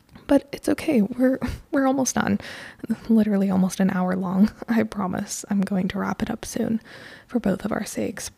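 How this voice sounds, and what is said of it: Strained, fading voice. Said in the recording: “Oh, do you hear my voice? I'm losing my voice because I literally recorded a podcast episode before this one”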